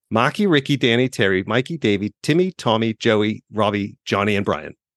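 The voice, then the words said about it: Weak put-on Boston accent. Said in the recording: “I'm going to bring out my worst Boston accent right now ... I'm not going to do it justice ... I'm so much worse than Matt Damon”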